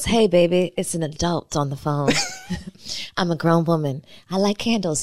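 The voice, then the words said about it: Put-on grown and sexy voice. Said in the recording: “accent? ... That's my grown and sexy voice.”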